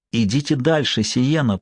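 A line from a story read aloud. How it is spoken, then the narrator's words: Impulsive whisper. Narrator (Russian): прошептал он, повинуясь внезапному порыву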